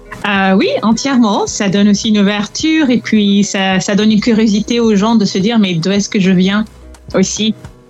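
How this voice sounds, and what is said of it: French with slight English accent. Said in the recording (French): “tu as un petit accent anglais parce que tu, es, tu es une anglophone euh, de nature”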